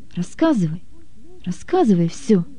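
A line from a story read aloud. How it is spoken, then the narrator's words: Quiet. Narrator (Russian): тихо сказал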